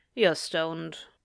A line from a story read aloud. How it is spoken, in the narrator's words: Bia remarked dryly